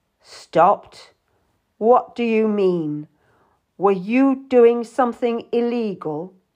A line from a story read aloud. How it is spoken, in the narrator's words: His voice was like ice